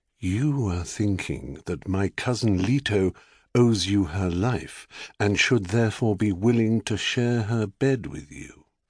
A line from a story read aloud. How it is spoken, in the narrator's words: A voice murmured in Zeus's ear